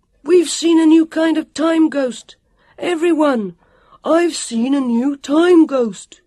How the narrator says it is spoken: His voice could be heard booming

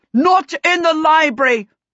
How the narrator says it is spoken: The king and the princess shouted with one voice

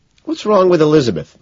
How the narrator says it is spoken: Van Patten asks

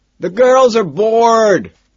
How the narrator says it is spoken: Lewis screams at me

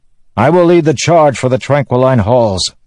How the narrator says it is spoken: the man shouted

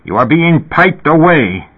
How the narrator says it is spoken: Elias said furiously

